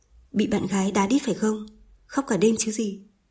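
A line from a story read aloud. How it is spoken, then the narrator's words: Laughing, teasing. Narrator (Vietnamese): Điền Lợi bật cười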